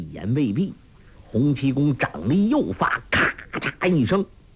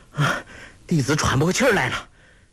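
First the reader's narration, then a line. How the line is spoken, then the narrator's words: Panting cry. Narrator (Chinese): 郭靖气喘吁吁地叫道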